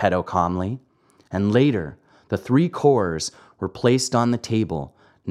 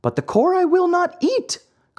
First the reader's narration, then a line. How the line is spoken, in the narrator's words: cried Pinocchio in an angry tone